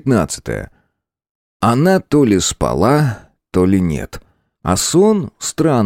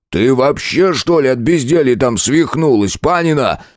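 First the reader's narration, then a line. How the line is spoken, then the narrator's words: Yelling. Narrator (Russian): заорал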